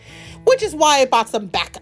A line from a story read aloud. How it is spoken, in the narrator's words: Kraven shouted